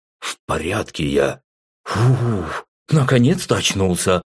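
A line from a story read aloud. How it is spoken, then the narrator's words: Relieved exhale. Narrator (Russian): расслабленно выдохнул Артур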